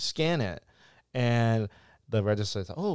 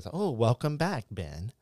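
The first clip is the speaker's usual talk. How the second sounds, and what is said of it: Robotic self-checkout machine voice. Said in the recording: “doing it my robotic voice ... self-checkout voice”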